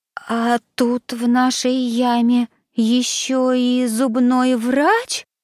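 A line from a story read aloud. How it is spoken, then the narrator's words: Frightened timid babble. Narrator (Russian): пролепетал Даня, который больше всего на свете боялся зубных врачей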